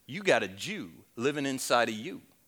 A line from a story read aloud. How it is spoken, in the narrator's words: in a very bad Southwestern drawl, I said